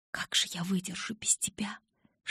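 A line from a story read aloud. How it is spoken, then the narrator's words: Whispered. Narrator (Russian): шептала я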